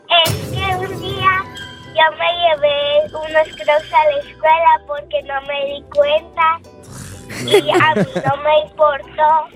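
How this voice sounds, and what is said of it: Regional northern Mexican accent. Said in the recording (Spanish): “qué bonito sí, acento.”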